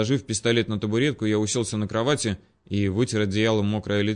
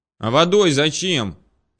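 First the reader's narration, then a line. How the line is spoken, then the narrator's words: Shouted. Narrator (Russian): крикнул я ей в спину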